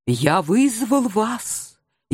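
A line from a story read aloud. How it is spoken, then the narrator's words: Barely audible voice. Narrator (Russian): еле слышным голосом начал он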